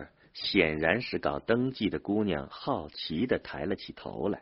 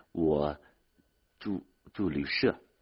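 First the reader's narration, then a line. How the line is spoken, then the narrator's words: Timid stammering. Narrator (Chinese): 他胆怯的 结结巴巴的对里面一位办公的姑娘说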